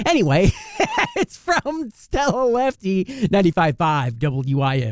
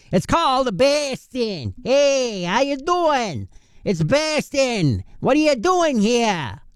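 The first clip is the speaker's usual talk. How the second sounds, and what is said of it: Attempted Boston accent. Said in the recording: “I'm going to try and use my Boston accent ... No, you don't like it? No, I didn't either. I didn't think it would work either”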